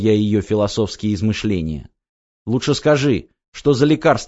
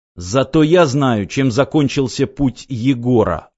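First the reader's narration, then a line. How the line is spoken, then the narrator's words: Angry, curt. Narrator (Russian): зло обронил я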